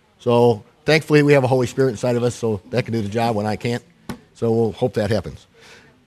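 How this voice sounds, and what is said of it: Voice affected by a cold. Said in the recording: “I'm running about half power today. I have a cold”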